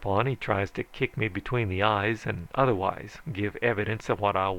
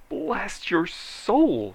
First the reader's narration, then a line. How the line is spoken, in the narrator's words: he shrieked